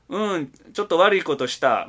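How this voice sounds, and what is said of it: Put-on Kansai dialect. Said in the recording (Japanese): “しかもこれ関西弁でね...ちょっと難しいな関西弁な”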